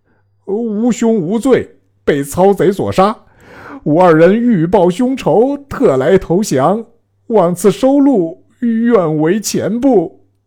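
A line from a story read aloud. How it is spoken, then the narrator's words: Crying. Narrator (Chinese): 二人哭拜曰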